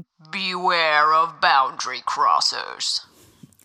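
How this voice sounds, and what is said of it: Ominous, warning tone of voice. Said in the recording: “in a very bewareful voice”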